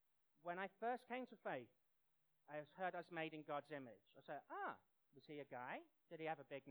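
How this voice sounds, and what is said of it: Usual voice. Nothing is said of it.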